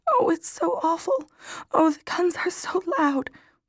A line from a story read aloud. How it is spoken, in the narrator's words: Beaverbrook, the fatalist, practically burst into tears and said in a timid little voice